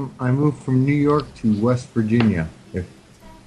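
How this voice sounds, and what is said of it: Usual voice. Nothing is said of it.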